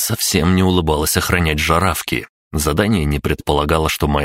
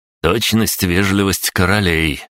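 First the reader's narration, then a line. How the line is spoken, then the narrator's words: Scornful jab with snort. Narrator (Russian): уколол меня жаравки, пренебрежительно хмыкнув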